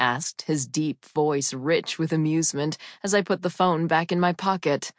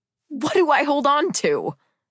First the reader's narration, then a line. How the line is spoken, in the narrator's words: I squealed, laughing, even though I had a very high chance of dying